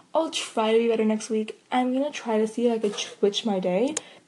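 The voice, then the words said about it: Cracky, tired voice. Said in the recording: “My voice is very cracky. I'm just very tired.”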